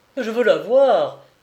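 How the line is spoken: Exclaiming. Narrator (French): s'écria Henri

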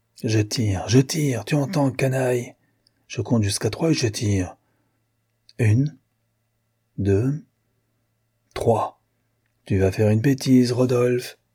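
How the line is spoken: Whispering softly. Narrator (French): susurra Sauvinou

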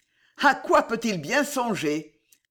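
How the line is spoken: Sneering. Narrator (French): ricana Belgodère

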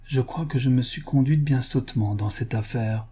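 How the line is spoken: Low voice. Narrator (French): dit à voix basse Madame Wilkinson

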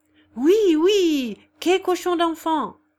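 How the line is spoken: Group shouting. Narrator (French): criait toute la table

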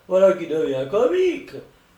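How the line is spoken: Exclaimed. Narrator (French): s'écria John Robbins

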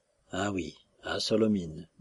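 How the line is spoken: Slow. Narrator (French): dit lentement Nejdanov

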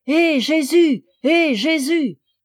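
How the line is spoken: Children shouting. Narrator (French): les enfants criaient

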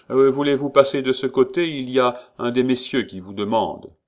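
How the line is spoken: Shouted. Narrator (French): cria l'exécuteur

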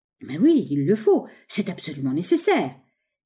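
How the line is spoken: Crowd crying in unison. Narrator (French): s'écrièrent d'une voix tous les pensionnaires

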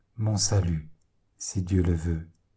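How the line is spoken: Low voice. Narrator (French): fit-il à voix basse

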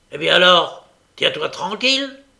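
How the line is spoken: Gruff growling. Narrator (French): ajouta Sikes en grondant comme il avait l'habitude de le faire quand il s'adressait à son chien

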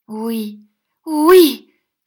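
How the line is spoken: Shout. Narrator (French): cria Smic

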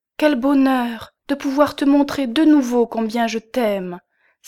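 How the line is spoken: Exclaiming. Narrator (French): s'écria-t-elle

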